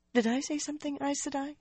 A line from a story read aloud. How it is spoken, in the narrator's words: she asked weakly